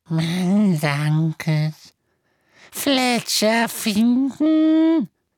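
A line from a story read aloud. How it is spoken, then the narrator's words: Croaking. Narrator (German): krächzte er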